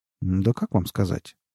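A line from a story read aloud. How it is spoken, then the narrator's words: Mumbled. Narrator (Russian): промямлил Нунан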